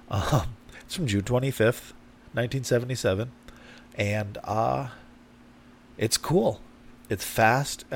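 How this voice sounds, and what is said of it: Congested, stuffy-nosed voice. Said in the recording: “congested”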